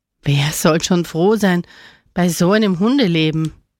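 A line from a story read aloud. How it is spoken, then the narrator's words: Unfriendly growl. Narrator (German): knurrte Camillo wenig freundlich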